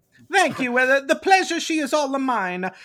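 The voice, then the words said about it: Inconsistent Mario-style cartoon accent. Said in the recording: “Come back British when you get a real accent ... that Mario”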